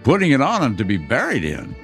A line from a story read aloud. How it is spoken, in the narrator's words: replied the woman with a laugh